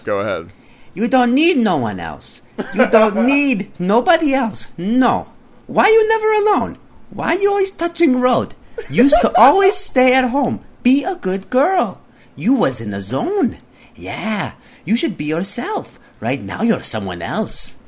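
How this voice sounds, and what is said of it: Put-on stereotyped Chinese accent. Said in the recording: “a racist. Um, Chinese uh, accent.”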